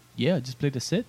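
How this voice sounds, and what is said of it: Put-on New Zealand accent. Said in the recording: “That's my New Zealand accent. ... That was pretty good. ... It was really good.”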